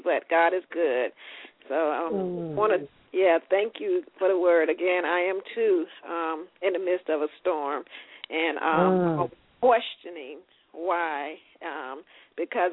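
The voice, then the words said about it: Slightly hoarse voice. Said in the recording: “my voice is a little dealing with a little allergies here, so I'm a little bit hoarse, ... a little bit stretchy”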